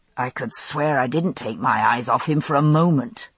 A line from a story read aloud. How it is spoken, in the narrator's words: muttered Frank